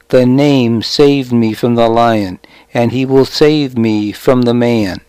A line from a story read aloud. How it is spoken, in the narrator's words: he said